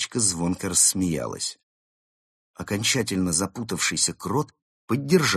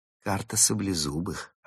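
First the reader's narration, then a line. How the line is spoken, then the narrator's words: Plain. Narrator (Russian): ответила Берта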